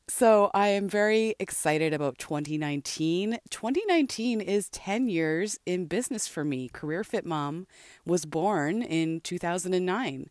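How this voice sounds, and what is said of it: Congested, less musical voice. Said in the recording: “Had some pretty bad chest congestion ... my voice is sounding a little weird ... the sound quality of my voice today. It's not as musical as usual”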